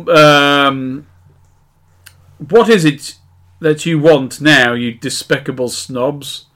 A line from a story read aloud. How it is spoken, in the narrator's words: He asked angrily